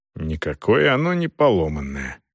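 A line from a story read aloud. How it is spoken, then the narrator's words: Grumbling. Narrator (Russian): пробурчал он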